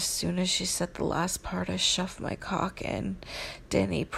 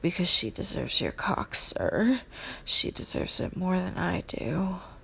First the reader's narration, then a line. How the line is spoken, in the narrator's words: Claire hesitated for a moment and then panted